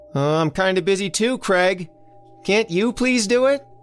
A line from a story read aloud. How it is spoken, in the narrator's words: Elsie hollered back